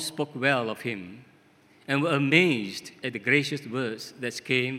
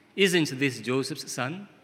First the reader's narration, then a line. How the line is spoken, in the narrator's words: they asked